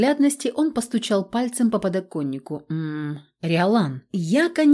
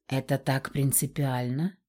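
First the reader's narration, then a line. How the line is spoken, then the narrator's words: Quiet, sly. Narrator (Russian): тихо произнес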